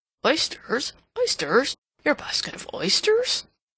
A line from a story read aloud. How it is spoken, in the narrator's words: muttering